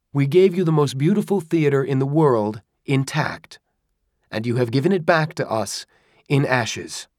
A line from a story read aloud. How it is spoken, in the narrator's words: the voice called out to Cacciari